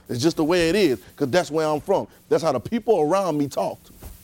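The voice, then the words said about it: Regional accent. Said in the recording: “we got an accent. I know I'm from Gosmer, so there's a certain way I talk. When I go up north, they say, boy, look, you got an accent.”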